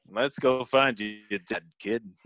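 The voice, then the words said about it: Imitates Lando Calrissian's voice. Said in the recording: “my Lando Calrissian impression ... You did a good one ... it's so not good”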